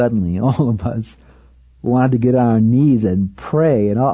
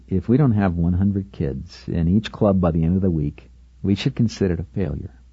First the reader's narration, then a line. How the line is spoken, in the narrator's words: I quietly said